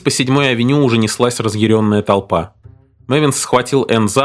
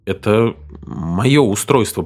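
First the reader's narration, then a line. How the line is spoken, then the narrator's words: Mutter. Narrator (Russian): пробормотал Мэвинс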